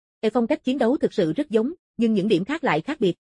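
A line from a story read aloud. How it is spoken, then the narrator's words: Calm, even. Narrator (Vietnamese): Hồng Quỳ không lộ vẻ tức giận, bình thản nói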